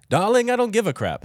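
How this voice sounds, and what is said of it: Put-on transatlantic accent. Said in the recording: “What is his accent? ... That's the transatlantic accent.”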